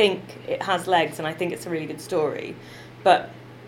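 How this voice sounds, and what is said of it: Usual voice. Nothing is said of it.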